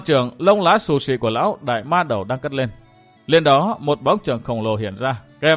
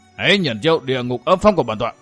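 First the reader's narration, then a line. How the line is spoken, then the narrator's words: Angry roar. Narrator (Vietnamese): U Hồn Cốc Chủ nổi giận gầm lên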